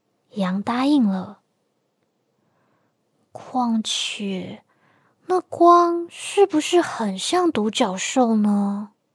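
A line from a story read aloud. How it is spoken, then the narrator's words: Murmuring to itself. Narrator (Chinese): 斑马喃喃自语着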